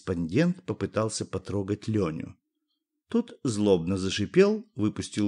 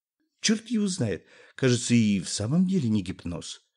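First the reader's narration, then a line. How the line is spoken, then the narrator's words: Uncertain. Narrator (Russian): неуверенно сказал корреспондент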